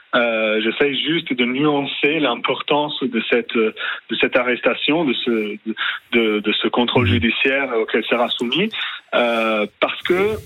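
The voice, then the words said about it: Charming Italian accent in French. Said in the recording (French): “votre accent, votre charmant accent, nous fait dire que vous êtes d'origine italienne”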